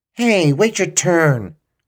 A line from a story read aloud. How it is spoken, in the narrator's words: shouted an elderly lady in English